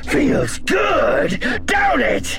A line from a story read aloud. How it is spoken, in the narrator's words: He shouted, spitting the words